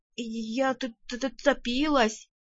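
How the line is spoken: Forced out, triumphant, teeth chattering. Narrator (Russian): выдавила я, триумфально лязгая зубами

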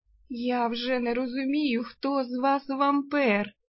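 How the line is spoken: Strained breathy exhale. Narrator (Russian): натужно выдохнула Арсана

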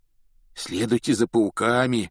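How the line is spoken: Hoarse rasp. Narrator (Russian): прохрипел он

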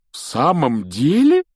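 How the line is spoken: Delighted exclamation. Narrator (Russian): с нескрываемым восторгом воскликнул мистер Уизли

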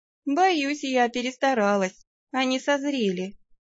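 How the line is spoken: Sad remark. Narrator (Russian): печально отметила я

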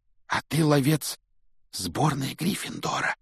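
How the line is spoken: Reverent whisper. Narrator (Russian): благоговейно прошептал Колин

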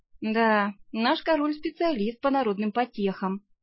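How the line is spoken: Sigh. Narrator (Russian): вздохнула

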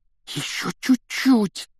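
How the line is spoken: Breathless exhale. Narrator (Russian): выдохнул Рон

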